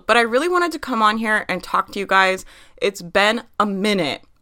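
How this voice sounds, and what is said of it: Congested, stuffy voice. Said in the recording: “I have a little cold”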